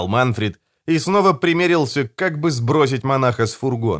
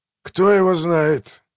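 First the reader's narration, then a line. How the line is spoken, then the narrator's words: Gruff mutter. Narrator (Russian): буркнул Манфрид, мрачно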